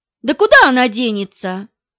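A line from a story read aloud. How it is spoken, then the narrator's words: Snort. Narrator (Russian): хмыкнул второй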